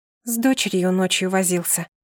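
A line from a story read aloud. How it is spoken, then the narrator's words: Quiet mumble. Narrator (Russian): тихо пробормотала я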